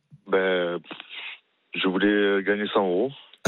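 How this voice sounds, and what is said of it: Marseille French accent. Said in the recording (French): “Et il vient d'où ce petit accent? ... De Marseille.”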